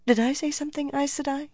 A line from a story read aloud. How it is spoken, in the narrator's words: asked weakly